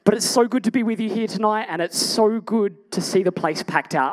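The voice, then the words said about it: Strained, worn-out voice. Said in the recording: “I've blown my voice out”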